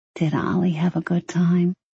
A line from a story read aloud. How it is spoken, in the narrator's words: she whispered